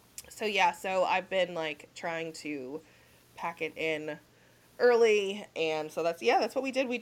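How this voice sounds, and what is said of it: Sick, slightly congested voice. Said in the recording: “I've been sick for probably like a month now. You can probably still hear it in my voice... A little.”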